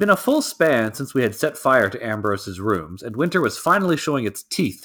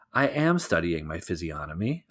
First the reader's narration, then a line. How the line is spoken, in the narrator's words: I protested softly